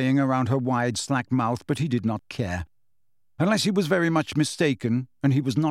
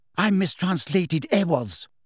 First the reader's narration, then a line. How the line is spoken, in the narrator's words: said Hermione furiously